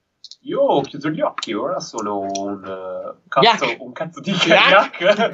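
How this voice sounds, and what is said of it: Put-on accent. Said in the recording (Italian): “Puoi anche parlare normale ... se vuoi puoi non mettere l'accento ... questo accento meraviglioso”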